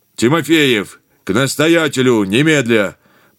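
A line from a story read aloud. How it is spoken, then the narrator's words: Booming commanding messenger. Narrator (Russian): Прогремел посыльный, словно капитан корабля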